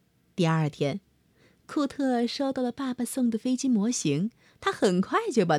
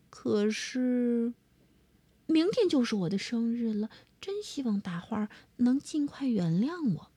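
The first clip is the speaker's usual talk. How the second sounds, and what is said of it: Quiet, murmured to oneself. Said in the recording (Chinese): “小声的对自己说”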